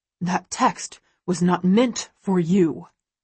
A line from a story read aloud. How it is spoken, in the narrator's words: he growls